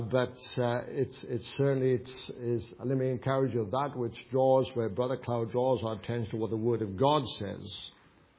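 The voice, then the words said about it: Welsh accent. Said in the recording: “with my Welsh accent”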